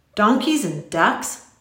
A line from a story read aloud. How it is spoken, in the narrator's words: Tom scoffed